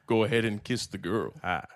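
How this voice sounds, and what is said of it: Morgan Freeman impression. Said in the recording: “do your Morgan Freeman impression ... No, perfect. Well, that was good ... A little Obama.”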